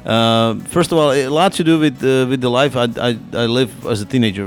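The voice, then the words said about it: Foreign accent. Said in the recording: “you can figure it out by accent”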